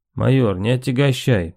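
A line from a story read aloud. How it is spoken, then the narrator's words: Colonel's clipped hiss. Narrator (Russian): процедил полковник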